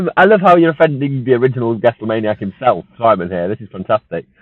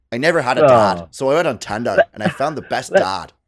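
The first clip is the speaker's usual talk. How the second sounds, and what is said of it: Attempted Irish accent. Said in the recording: “I can't do ... Irish accent”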